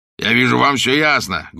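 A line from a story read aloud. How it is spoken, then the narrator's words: Coarse guffaw. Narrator (Russian): грубо захохотал бишоп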